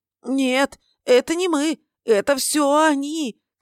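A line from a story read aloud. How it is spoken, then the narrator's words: Terrified piglike squeal. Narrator (Russian): Контрабандист визжал, как свинья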